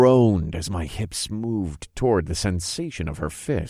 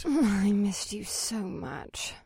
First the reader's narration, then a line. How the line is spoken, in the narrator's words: Alyssa sighed